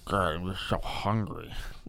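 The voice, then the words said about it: Exaggerated fat person character voice. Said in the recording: “I love doing like a fat person impersonation.”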